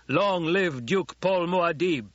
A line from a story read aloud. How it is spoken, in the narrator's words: he shouted